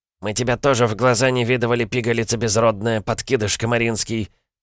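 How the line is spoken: Hiss through split lips. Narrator (Russian): прошипел молодой мужчина с разбитыми губами

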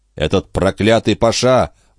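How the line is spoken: Exclaiming. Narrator (Russian): воскликнул Жюэль

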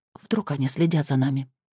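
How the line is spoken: Whisper. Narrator (Russian): прошептала она

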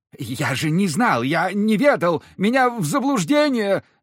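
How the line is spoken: Babbling great-grandfather. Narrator (Russian): лепетал прадед

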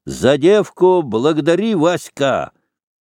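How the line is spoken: Shouted. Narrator (Russian): Петр крикнул Волкову

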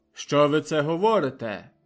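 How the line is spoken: Despairing shout. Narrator (Ukrainian): крикнув з розпукою в голосі

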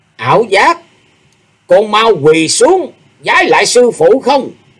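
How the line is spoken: Loud scolding command. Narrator (Vietnamese): Ảo Không đảo giả lớn tiếng quát bảo

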